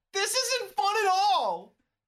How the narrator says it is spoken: You wail

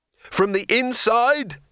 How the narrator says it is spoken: shouted Rincewind

